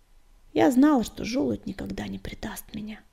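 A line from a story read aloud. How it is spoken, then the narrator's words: Whisper. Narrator (Russian): прошептала она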